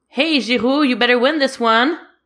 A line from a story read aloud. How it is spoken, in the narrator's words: cups his hands around his mouth and yells